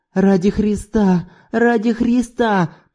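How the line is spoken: Moaning widow. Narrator (Russian): продолжала стонать вдова

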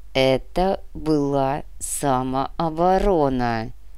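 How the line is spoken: Dull flat repetition. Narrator (Russian): глухо повторил Беловолосый

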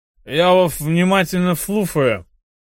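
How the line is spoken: Toothless mumbling. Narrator (Russian): прошамкал он

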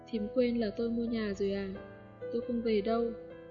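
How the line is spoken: Smiling reply. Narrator (Vietnamese): Cô mỉm cười và đáp

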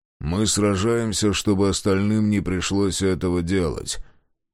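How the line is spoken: Hollow muffled voice. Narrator (Russian): глухо произнес Мемнен

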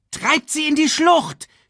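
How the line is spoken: Shouting. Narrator (German): schrie Shenzi ihren Kameraden zu

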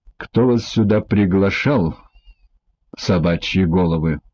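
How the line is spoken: Growl. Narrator (Russian): прорычал судья

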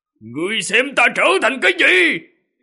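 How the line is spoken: Furious roar. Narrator (Vietnamese): Ô Cổ gào một tiếng, toàn thân máu huyết sôi trào

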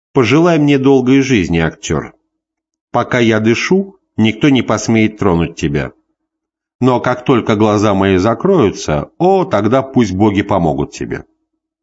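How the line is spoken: Dry ironic chuckle. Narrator (Russian): Тиберий сухо усмехнулся и иронически произнес

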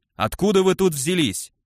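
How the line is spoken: Sudden bark close by. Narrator (Russian): Внезапно рявкнули чуть ли не над ухом

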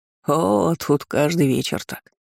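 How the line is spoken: Chuckling. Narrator (Russian): хохотнула смелевший лось

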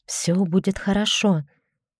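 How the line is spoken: Barely audible. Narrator (Russian): я проговорила едва слышно

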